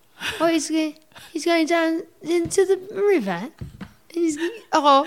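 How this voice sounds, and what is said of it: Nicole Kidman impression, Australian accent. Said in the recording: “let's each give each other a celebrity you have to do an impression of... Nicole Kidman... where's she from again?... Australia”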